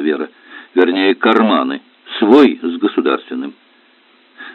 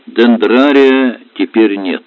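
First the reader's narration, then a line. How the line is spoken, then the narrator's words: Sighing. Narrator (Russian): вздохнула Валентина Ильинична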